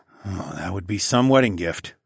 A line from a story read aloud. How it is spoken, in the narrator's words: I muttered